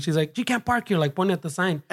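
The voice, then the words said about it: Poor put-on Asian accent. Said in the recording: “your guys' terrible accent... I'm thinking she's Asian”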